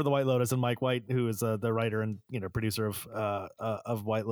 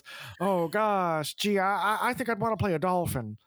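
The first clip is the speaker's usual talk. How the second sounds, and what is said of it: Imitates another person's voice. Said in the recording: “that honestly, was really good... great was a Jennifer impression. Coolidge impression”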